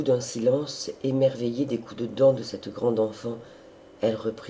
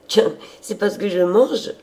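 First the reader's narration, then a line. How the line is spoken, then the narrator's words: Exclaiming. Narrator (French): s'écria-t-elle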